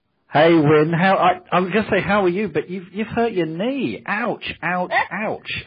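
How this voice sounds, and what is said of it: UK accent. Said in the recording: “a strange accent, that is the UK accent”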